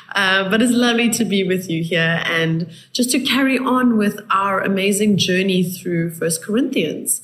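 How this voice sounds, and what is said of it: Raspy voice. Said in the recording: “I apologize for my raspy voice. I'm recovering from flu”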